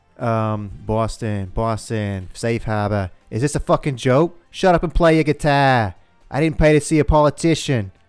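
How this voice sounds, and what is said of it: Put-on Boston-like Rhode Island accent. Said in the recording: “What's the Rhode Island accent? ... It's kind of Boston-y.”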